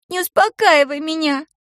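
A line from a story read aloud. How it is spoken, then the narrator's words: Sobbing. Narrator (Russian): прорыдала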